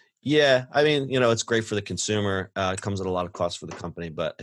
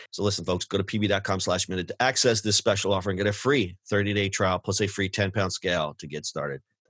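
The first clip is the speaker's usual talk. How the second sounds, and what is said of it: Reading very fast. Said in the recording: “That's why I read it fast.”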